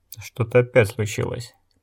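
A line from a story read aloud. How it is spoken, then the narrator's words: Muttered. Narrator (Russian): пробормотал Гиз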